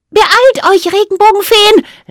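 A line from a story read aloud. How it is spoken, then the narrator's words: Call. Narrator (German): rief sie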